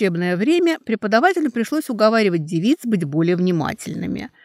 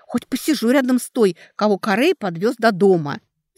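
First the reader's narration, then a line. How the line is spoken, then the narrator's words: Whispered. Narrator (Russian): Лидия нагло прошептала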